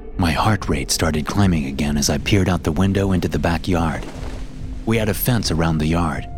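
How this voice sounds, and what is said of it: Usual voice. Nothing is said of it.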